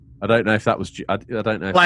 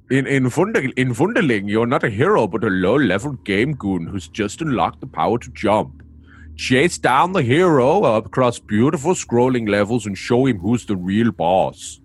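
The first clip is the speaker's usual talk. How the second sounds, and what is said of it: Put-on German accent. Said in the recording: “You gotta be German now, bro. ... for me, it's German enough.”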